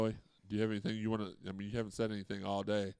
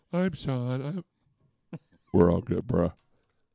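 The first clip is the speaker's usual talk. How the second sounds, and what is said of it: Imitates other people's voices. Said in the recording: “That's my impersonations of them.”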